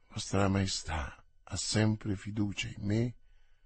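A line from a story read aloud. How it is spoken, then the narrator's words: Said under breath. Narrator (Italian): le disse sottovoce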